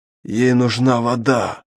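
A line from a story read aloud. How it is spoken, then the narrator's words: Old man's hoarse rasp. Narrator (Russian): прохрипел старик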